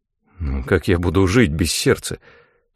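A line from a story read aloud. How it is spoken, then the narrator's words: Uncertain mumble. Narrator (Russian): Неуверенно пробормотал я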